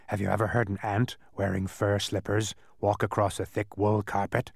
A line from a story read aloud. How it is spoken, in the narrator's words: he went on in his strange, croaking way